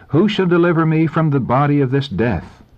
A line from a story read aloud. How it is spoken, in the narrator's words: In anguish they cried out